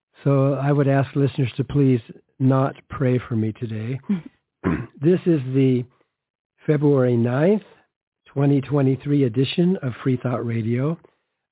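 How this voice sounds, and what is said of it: Hoarse, congested voice. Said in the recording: “You can probably tell from my voice that I'm fighting a head cold. I feel great, but my voice is just kind of, laryngitis.”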